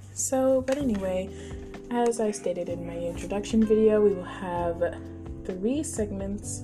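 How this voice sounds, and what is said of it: Voice sounds sick. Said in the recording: “Excuse me if I sound sick.”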